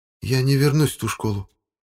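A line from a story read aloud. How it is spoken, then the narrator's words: Barely audible, brother. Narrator (Russian): еле слышно сказал брат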